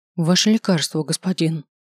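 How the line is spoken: Grumbled. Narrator (Russian): буркнул я

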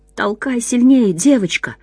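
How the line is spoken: Whisper. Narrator (Russian): шептал другой

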